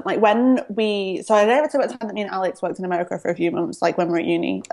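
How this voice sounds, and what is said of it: Strong Northern English accent. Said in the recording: “I'm from Manchester, I'm Northern, so I have a strong accent”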